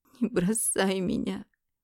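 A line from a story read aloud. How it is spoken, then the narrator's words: Bitter sobbing. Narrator (Russian): Горько разрыдалась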